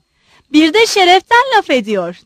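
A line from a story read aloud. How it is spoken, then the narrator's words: Shouting. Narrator (Turkish): diye bağırdı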